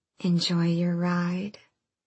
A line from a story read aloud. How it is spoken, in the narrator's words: the shifter who purred